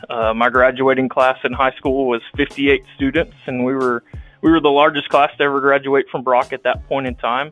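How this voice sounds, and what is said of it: Texan accent. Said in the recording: “I was born and raised in Texas. Most of you can probably tell from my accent.”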